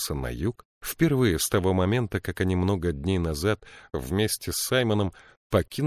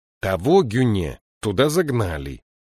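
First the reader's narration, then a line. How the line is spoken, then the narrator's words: Irritated reply. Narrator (Russian): раздраженно ответил Бенабик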